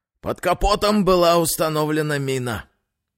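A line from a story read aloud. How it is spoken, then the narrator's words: Breathless exhale. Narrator (Russian): выдохнул Акимов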